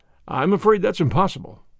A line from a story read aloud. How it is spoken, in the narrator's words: I replied